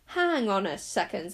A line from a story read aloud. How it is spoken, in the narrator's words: said Zara crossly